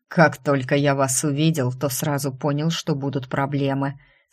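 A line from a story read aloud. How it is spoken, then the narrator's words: Hissed through teeth. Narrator (Russian): сквозь зубы процедил неизвестный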